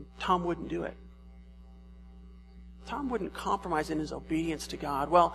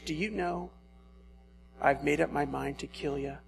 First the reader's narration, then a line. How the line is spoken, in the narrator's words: said Legree, speaking through his teeth in a paroxysm of determined rage